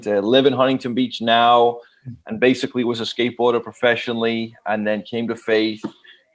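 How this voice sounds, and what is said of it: Liverpool English accent. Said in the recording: “from Liverpool, England, probably have the funniest accent.”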